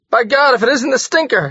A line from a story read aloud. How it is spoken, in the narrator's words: he cried